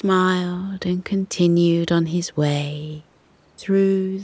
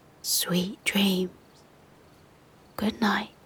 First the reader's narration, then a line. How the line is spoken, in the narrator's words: He whispered to them